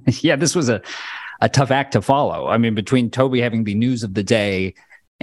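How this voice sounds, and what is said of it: Flat redneck Californian voice. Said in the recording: “My flat sort of redneck California timbre”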